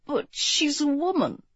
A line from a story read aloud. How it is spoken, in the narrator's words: he murmured